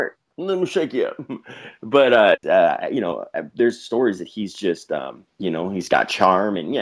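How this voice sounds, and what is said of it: Usual voice. Nothing is said of it.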